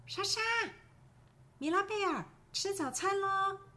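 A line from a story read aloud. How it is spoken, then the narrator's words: Mother calling from downstairs. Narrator (Chinese): 妈妈从楼下叫我们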